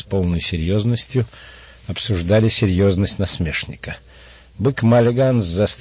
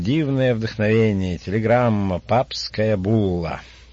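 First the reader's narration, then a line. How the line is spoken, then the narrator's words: Loud cheerful reading. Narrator (Russian): Он громко, весело прочитал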